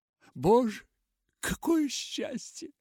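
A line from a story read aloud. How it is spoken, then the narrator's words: Joyful exclamation. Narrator (Russian): воскликнула Нэнси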